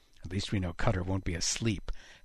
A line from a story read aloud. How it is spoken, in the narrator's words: Haddock muttered